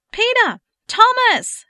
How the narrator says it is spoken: she hollered down

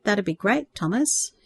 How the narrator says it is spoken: replied hesitantly

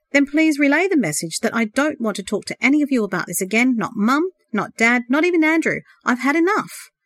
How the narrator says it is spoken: one of the tall figures replied curtly

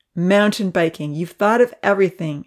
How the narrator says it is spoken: Evan exclaimed with admiration

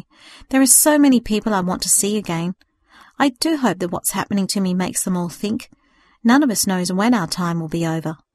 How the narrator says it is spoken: sighed with great agony

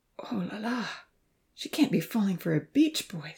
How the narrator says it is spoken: the professor moaned

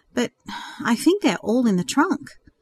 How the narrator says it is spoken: Jessica replied uneasily

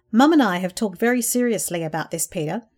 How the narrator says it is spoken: said firmly

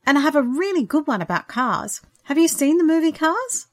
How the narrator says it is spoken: she told him excitedly

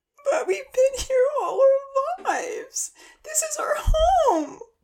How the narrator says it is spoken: Rosa wailed

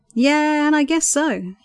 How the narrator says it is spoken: he chuckled

